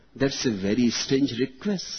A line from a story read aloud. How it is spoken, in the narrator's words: said Mr